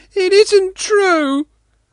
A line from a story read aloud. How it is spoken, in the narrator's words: Sanka wailed, deeply offended